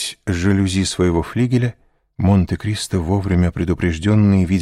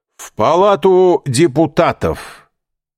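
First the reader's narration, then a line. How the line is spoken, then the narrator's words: Loud shout across road. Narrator (Russian): так, чтобы было слышно через дорогу, крикнул кучеру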